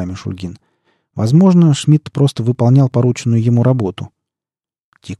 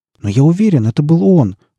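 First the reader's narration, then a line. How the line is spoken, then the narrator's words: Defensive indignant exclamation. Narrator (Russian): воскликнул Аавал так, будто его пытались уличить во лжи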